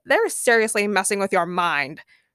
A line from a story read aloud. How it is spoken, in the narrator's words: her mother scoffed